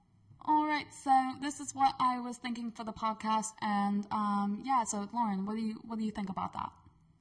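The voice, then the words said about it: Put-on British English accent. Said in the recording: “let me do my English accent because I've been working on it ... I'm going to pretend like I'm British ... That was actually pretty good.”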